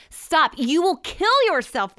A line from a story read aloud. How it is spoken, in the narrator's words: they cried